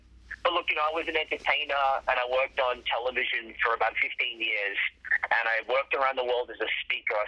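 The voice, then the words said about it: Australian accent. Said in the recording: “what is this voice? It's an Australian accent ... it's an Australian accent”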